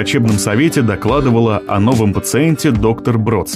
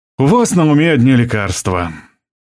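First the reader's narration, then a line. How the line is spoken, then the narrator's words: Sigh. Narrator (Russian): вздохнул Фридман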